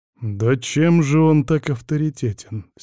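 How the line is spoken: Through clenched teeth. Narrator (Russian): стиснув зубы, процедил я

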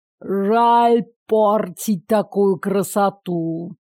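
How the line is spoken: Lewd drawl. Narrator (Russian): протянул он, похабно облизываясь

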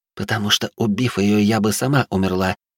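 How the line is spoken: Whispered. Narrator (Russian): прошептала Ольга

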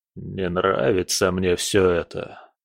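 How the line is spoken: Mutter. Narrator (Russian): пробормотал он

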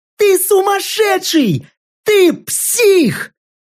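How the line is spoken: Distant shout. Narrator (Russian): уже метров за 30 от меня крикнула последний раз

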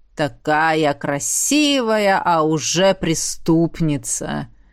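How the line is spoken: Through gritted teeth. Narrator (Russian): Процедила, тот, что носил странное имя Ахараш

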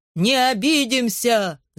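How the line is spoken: Crowd shouting in unison. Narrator (Russian): закричали все в один голос

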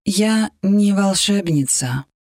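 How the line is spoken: Sad. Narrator (Russian): грустно сказала Иби

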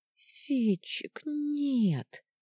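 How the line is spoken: Girl moaning. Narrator (Russian): простонала девочка

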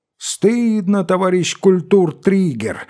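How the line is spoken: Crowd shouting. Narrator (Russian): закричали все

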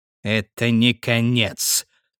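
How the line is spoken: Muttered through clenched teeth. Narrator (Russian): процедил инквизитор

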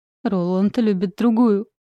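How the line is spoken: Shouting between sobs. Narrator (Russian): Выкрикиваю между всхлипываниями

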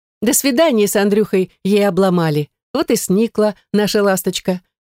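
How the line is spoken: Laughing. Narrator (Russian): хохотнула Ирина

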